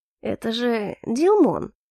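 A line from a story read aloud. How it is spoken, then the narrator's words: Strained, disbelieving voice. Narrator (Russian): Сдавленным голосом закончил он, словно бы сам себе не веря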